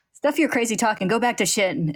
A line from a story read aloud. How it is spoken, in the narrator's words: Ed snaps